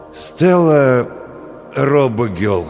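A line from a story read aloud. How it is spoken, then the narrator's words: Forced out with effort. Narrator (Russian): с усилием выдавил Олег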